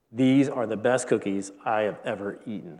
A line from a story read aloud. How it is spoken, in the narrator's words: said Frog